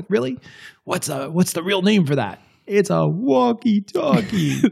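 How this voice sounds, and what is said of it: Imitates another person's voice. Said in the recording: “That's exactly what he sounds like. ... That's a good impersonation.”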